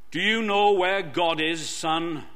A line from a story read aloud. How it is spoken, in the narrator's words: The preacher, a huge man with a deep, booming voice, asked him sternly